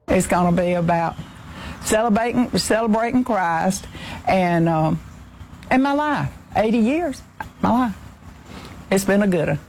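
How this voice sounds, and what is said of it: Southern Georgia accent. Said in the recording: “She has perfect George accent, by the way. ... Just perfect.”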